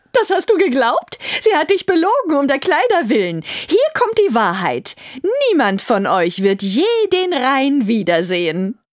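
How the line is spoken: Laughing. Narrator (German): die andere lachte

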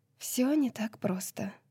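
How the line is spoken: Quiet. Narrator (Russian): тихо ответила она

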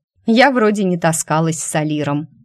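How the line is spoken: Snort and sigh. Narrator (Russian): хмыкнула я и вздохнула

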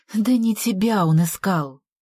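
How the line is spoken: Annoyed sigh. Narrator (Russian): Я досадливо вздохнула

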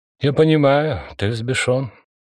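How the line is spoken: Conciliatory. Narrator (Russian): примирительным тоном сказал Липай

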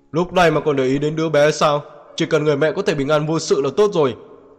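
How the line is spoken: Displeased, deep-voiced shout. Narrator (Vietnamese): coi trước không vui trầm giọng quát lên

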